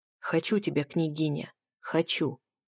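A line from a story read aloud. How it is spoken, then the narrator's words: Breathy whisper against lips. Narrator (Russian): Выдохнул он в губы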